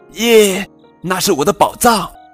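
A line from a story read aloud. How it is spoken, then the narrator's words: Shouting. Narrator (Chinese): 韦伯喊道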